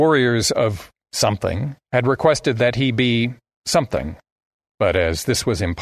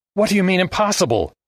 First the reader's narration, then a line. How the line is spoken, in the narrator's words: Armitage yelped